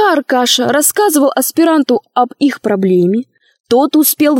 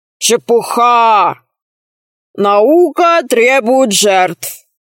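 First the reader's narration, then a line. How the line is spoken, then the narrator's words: Deep bass voice. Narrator (Russian): ответил басом аспирант Пруси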